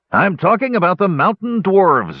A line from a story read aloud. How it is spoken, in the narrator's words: yelled Hanok